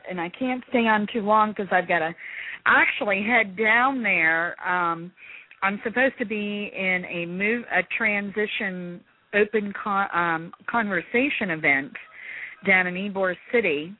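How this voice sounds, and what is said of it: Voice changed by a cold. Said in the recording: “I've had a bad cold, so my voice has probably changed a little bit.”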